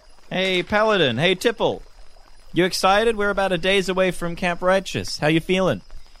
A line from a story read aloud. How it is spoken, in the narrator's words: I shout from my canoe